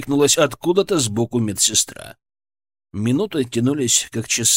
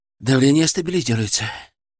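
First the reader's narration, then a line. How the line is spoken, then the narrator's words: Strained, breathless. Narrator (Russian): с трудом выдохнул Артем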